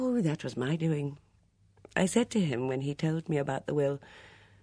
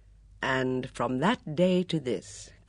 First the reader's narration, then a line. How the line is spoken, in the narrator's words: Craddock said slowly